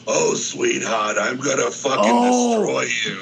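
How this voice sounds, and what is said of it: Raspy hokey imitated actor voice. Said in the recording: “that one actor who had that really raspy voice ... he'd just get all hokey”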